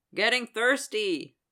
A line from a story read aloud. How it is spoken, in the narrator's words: the guy yelled over the club noise